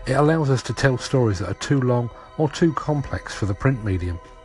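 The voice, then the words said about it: South London accent. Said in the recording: “my deplorable South London accent”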